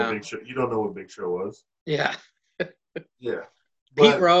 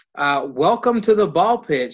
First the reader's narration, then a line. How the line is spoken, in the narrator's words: she yells